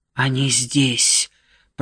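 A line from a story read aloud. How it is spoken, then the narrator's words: Whisper. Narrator (Russian): прошептал Нат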